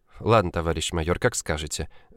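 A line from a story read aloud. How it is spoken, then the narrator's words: Sighing. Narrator (Russian): вздохнула Ульяна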